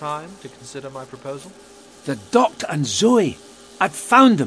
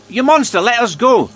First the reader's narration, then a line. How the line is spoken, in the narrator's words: she shouted to draw Curtis's attention